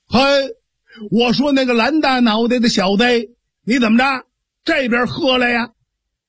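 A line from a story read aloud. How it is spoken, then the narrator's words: Excited shouting. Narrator (Chinese): 爱虎是越说呀他还越来劲儿，索性这张豹啊就冲着蓝脸大汉喊上了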